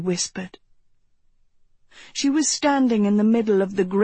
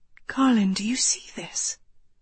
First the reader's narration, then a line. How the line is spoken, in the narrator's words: she whispered